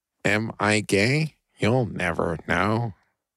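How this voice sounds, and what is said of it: Robot voice impression. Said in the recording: “Robot voice. Everyone likes that robot voice. ... It's my best robot impression. ... That's pretty good, man.”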